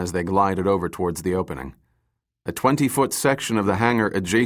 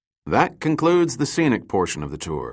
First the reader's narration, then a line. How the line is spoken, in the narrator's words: Dirk said